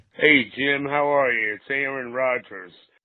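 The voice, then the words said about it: Bad Aaron Rodgers impression. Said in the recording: “this horrible impression ... this terrible impression ... not only is that not Aaron Rodgers”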